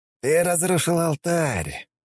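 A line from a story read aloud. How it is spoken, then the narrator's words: Breathed out. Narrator (Russian): выдохнул Лой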